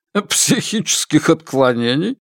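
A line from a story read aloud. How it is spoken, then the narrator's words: Hearty laughter. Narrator (Russian): Син Джисен от души расхохотался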